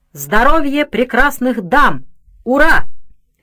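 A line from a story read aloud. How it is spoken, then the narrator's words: Shout. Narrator (Russian): Хаим крикнул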